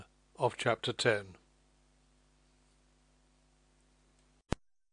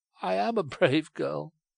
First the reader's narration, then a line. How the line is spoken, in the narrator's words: she cried